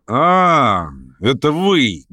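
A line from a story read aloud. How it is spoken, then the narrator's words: Loud guffaw. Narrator (Russian): громко захохотал Ставрогин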